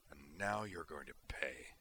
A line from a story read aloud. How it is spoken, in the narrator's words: Griffin snarled through his teeth at HN-1